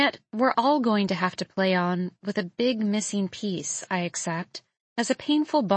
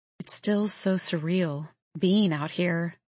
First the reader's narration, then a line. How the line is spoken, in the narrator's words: she murmurs